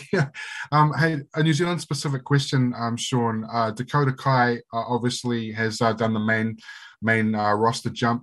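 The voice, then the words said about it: Croaky early-morning voice. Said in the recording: “It's 6 a.m. in the morning here in New Zealand, so excuse me if my voice is croaky.”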